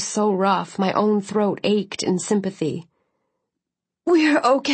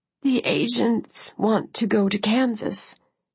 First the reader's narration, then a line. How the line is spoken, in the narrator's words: she said, her voice strained